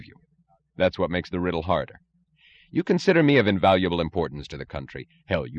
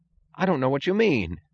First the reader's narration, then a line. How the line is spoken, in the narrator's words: said Mooch, in an injured tone of voice